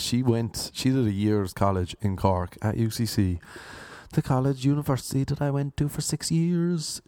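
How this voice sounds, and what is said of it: Irish Cork accent. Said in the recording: “I know the accent... I am from Cork. This is a Cork accent.”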